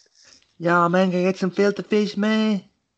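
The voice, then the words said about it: Imitates another person's voice, badly. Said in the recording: “terrible impression of Chris Tucker”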